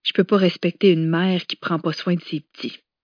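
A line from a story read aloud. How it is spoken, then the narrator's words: Sad remark. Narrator (French): constatait-elle tristement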